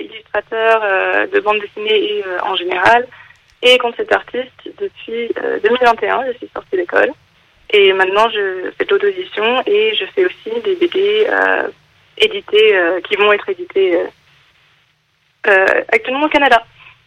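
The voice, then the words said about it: Slight English accent in French. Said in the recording (French): “y avait un petit accent quand même”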